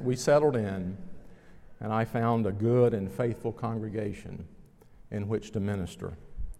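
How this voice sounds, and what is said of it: Southern, cowboy-like accent. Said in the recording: “Why are you talking like a cowboy? ... my accent”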